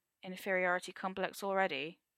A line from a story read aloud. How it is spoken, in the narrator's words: Arthur murmurs